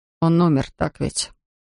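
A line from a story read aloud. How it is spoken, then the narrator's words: Quiet confession. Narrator (Russian): тихо призналась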